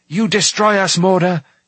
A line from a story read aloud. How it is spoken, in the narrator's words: he shouted